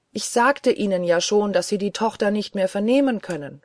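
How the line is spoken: Called out. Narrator (German): rief ich

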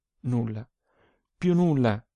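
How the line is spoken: Tearful murmur. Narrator (Italian): mormorò, e due lacrime calde le sgorgarono

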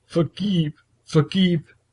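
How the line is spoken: Sobbing, repeating. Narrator (German): brach er in unaufhaltsames Schluchzen aus und wiederholte immer wieder

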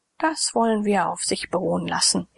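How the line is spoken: Calm reply. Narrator (German): erwiderte Lydon ruhig

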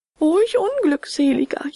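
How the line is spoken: Wailing. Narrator (German): jammerte er

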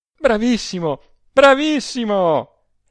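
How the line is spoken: Laughing exclamation. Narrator (Italian): esclamò ella ancor tra le risa

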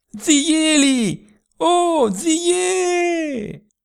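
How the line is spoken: Full-voiced shout. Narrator (Italian): come colpita da un'idea, con quanta voce aveva in gola gridò

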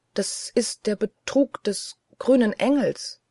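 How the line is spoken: Stammered. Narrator (German): Ich stammelte

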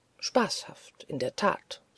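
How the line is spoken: Plain. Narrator (German): sagte

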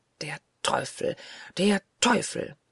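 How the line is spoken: Hissing. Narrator (German): zischte er

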